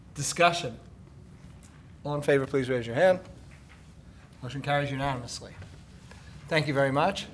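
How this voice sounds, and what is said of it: Hoarse, fading voice. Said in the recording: “I'm starting to lose my voice.”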